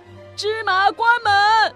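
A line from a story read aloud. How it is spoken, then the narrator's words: Imitative shout. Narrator (Chinese): 学首领喊着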